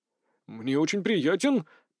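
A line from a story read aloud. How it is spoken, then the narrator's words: Muttered. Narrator (Russian): пробормотал Попов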